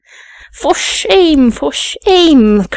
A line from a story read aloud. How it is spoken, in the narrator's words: cried the lady's maid